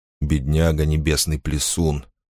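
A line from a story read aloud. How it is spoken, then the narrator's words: Muttered. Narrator (Russian): пробормотал он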